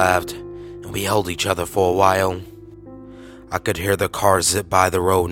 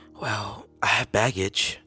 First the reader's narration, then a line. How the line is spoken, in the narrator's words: she whispered